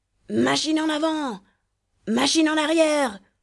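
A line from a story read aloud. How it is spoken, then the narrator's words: Hoarse captain shouting. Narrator (French): criait la voix enrouée du capitaine Barbassou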